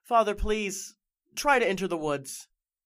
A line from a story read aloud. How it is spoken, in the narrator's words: Elizabeth exclaimed